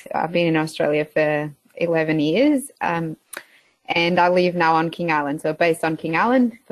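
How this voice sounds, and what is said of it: Portuguese accent. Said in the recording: “I've got a bit of an accent. So I am actually Portuguese.”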